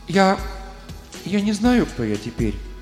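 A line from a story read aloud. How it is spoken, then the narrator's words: Timid. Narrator (Russian): робко проговорила она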